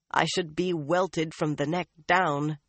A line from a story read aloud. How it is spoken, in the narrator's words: she said bitterly at last